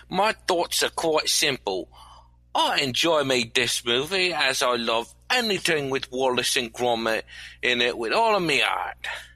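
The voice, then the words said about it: Terrible put-on English accent. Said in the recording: “doing a terrible English accent that'll make old Dick Van Dyke blush with humiliation”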